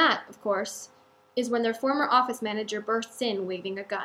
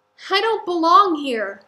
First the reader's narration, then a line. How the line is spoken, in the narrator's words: Michael cries